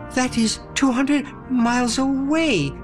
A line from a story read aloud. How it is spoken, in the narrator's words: Sebastian sputtered